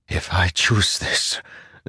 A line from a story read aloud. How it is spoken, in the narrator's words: Zeth whispered